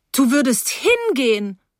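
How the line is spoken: Calling from doorway. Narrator (German): rief von der Tür aus

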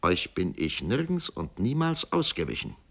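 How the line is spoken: Plain. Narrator (German): sagte Georg Kindler

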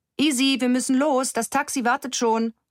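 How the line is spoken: Mother calling from below. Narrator (German): ruft ihre Mutter von unten herauf

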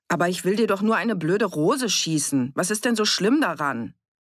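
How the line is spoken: Raised voice. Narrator (German): Er war laut geworden

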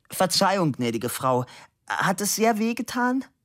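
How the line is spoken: Calling out. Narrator (German): rief

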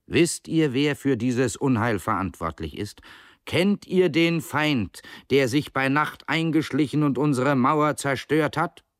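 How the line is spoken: Calm speech. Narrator (German): sagte er ruhig

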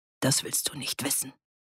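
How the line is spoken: Quiet. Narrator (German): sagte er leise

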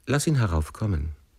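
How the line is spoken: Calm. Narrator (German): sagte sie ruhig zu dem Diener

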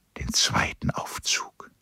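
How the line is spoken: Whispered. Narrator (German): flüsterte

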